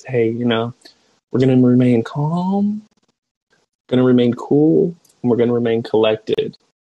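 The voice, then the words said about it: Really calm quoted voice. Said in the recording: “in a really calm voice”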